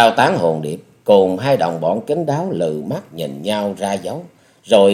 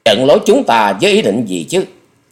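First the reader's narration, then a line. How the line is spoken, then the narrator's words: Fierce tight-lipped harsh. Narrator (Vietnamese): Độc Đao Tán Hồn Điệp mắt bắn hung quang, mím môi gầy gắt nói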